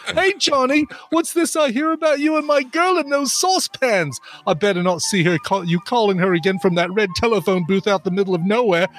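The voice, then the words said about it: Wavering Cockney British Australian accent. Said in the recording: “That accent wavered back and forth a little bit. It was Cockney for a second. ... a little British, a little Australian.”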